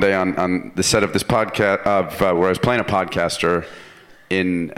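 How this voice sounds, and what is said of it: Usual voice. Nothing is said of it.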